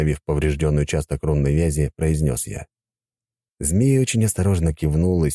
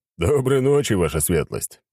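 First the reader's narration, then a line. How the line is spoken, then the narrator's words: Laughing. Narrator (Russian): рассмеялся Ротай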